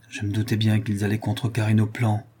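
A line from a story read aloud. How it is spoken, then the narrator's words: Murmured. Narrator (French): murmura Manon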